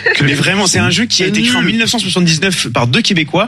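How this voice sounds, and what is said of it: Noticeable accent. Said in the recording (French): “on adore ton accent”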